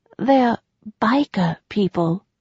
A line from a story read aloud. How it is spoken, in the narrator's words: she dropped her voice to a low whisper